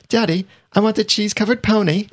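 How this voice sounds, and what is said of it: British little girl accent. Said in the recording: “a British accent. And I've imagined a little girl saying it ... my British little girl accent”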